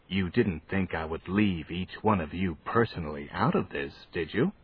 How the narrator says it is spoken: In a conspiratorial tone that they had to strain forward to hear, he said

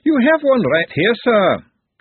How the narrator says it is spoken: A voice bellowed

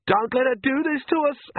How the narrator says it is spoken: Agnes shrieked

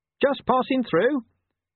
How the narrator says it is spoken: he said in a strangulatedly cheerful voice

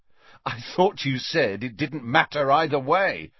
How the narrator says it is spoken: said Harry with a bitter laugh

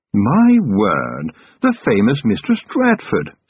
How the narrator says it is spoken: said a voice cheerfully

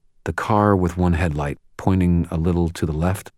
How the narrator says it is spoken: asked

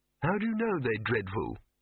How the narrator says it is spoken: said Victor weakly

